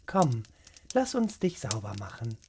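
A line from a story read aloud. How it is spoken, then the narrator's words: Gentle. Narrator (German): sagte sie sanft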